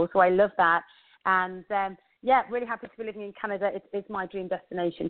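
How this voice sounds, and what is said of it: English accent. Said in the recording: “As you can hear, I have an English accent.”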